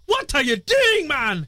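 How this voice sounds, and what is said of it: Put-on Scottish accent. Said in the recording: “I have to say it in a British accent. ... That's Scottish, actually. That's like Scotty from the new Star Trek movies.”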